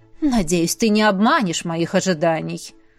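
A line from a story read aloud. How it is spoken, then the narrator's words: Grumbling. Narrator (Russian): проворчала королева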